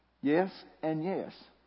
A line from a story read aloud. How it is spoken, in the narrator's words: said Hakim